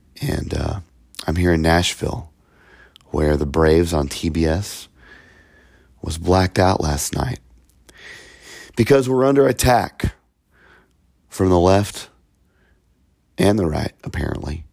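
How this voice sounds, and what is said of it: Rough, slightly sickly voice. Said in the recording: “my voice is a little bit crap. I've been a little under the weather.”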